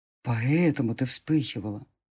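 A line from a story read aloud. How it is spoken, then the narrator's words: Whisper. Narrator (Russian): прошептал он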